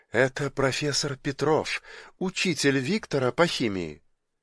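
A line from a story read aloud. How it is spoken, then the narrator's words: Quiet. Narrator (Russian): Зоя негромко сказала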